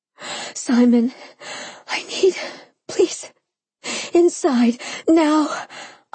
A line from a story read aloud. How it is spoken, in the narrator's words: I panted, almost incoherent with lust